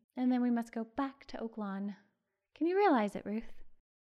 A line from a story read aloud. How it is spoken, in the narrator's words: sighed Carol